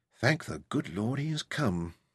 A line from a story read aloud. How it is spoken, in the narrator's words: said softly